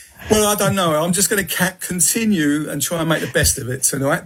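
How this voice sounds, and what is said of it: Southeast London accent. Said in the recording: “I was brought up in Peckham, London, southeast London, so that's my accent.”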